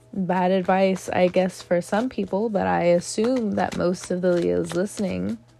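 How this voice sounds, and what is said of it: Raspy, slow-paced voice. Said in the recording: “my voice sounds very raspy, it's healing ... moving a little bit slow with my words”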